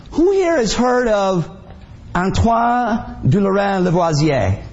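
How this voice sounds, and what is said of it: Exaggerated French accent. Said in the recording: “his French is impeccable. Where did you get that accent? ... from watching Peter Sellers movies”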